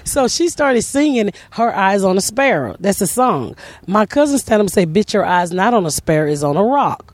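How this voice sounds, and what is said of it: Southern American accent. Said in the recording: “I'm that country. ... I got a southern scent. ... Accent.”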